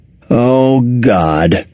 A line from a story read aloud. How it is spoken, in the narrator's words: she moaned